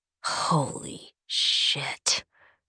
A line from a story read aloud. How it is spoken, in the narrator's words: Ren hisses